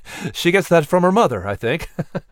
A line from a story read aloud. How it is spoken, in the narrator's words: Patrick joked with a laugh